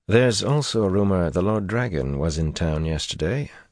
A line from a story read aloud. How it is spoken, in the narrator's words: Dorian said, as softly as the street noise would allow